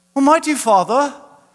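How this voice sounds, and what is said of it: Put-on British accent. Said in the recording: “they'll break into like a British accent.”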